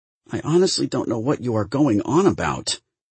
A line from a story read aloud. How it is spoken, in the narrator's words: Bell said pleadingly